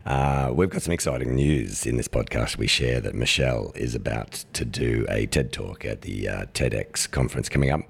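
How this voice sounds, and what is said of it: Very deep, strained voice. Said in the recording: “my very deep voice, I have to talk like this because I lost my voice ... if I try and talk in the higher register, I just lose it”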